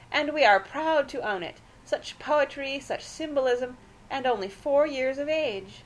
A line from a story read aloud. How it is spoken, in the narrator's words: cried Aunt Celia, surprisingly